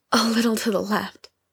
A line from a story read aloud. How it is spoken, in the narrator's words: Lindsay panted